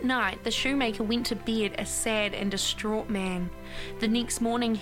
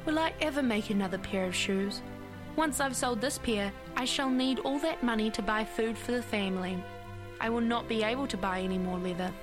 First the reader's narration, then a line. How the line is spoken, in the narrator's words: sighed